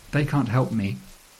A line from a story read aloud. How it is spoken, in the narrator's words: says